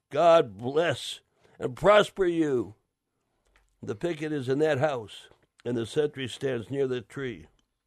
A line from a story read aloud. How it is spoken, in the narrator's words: the man cried